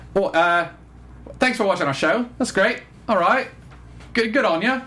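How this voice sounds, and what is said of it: Attempted New Zealand accent, judged poor. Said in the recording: “let me see if I can do the New Zealand accent right ... That's terrible.”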